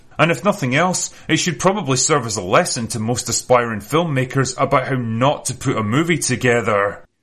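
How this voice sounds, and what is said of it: Scottish accent, distinctive sentence-final cadence. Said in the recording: “a Scottish accent ... The cadence of that guy's speaking ... Every last word of the sentence must end like this.”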